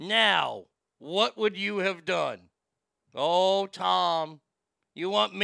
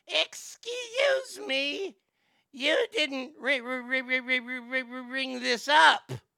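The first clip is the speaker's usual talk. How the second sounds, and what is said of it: Scratchy woman's voice. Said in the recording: “can you do the scratchy lady voice?”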